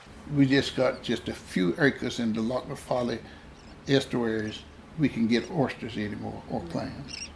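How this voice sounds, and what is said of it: Genuine North Carolina accent. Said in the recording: “Don't you love his dialect? Oh, his accent is just so genuine ... Retired shrimper, mm-hmm, ... from Brunswick County, North Carolina”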